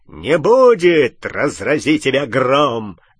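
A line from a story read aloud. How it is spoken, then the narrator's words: Barked. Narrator (Russian): рявкнул Амикус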